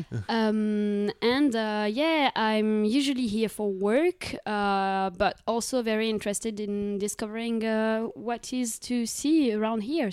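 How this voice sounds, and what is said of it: Fluent English with slight French accent. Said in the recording (French): “C'est fluent, il y, a le petit accent et tout.”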